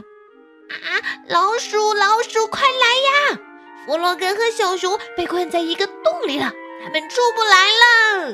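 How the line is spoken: Shrieking at top voice. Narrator (Chinese): 鸭子 用最大的声音尖叫着

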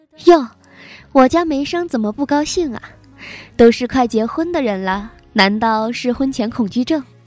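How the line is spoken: Cheerful, smiling. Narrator (Chinese): 她 笑容满面的说道

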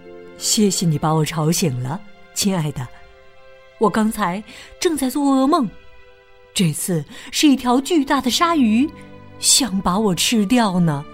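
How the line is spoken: Gentle. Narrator (Chinese): 王子却温柔的对公主说

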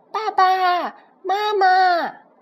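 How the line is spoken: Repeated crying calls. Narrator (Chinese): 它不断地叫啊叫，小翼龙哭着哭着

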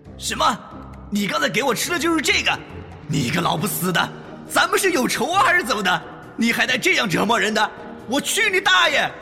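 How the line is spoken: Angry. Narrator (Chinese): 在愤怒之间

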